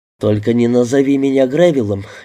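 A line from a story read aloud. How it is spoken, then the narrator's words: Laughing. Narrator (Russian): я засмеялся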